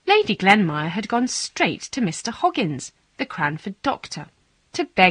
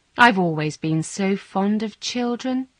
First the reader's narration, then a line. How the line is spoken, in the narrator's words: she said to me sadly